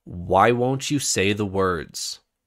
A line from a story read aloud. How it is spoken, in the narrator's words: the Stormfather asked